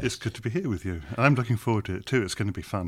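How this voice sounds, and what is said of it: British English accent. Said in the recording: “He's got this British accent. Maybe he's English. ... I've kept my accent ... when you say something in an English accent, it always sounds so much more authoritative ... although I'm from England”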